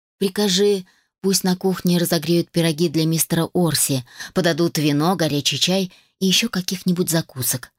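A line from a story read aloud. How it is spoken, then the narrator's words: Commanding. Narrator (Russian): распорядилась я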